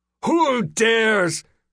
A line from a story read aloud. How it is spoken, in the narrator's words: The admiral bellowed